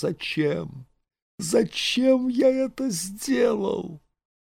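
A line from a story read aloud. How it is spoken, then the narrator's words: Sobbing desperate whisper. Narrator (Russian): Он всхлипывал и шептал отчаянно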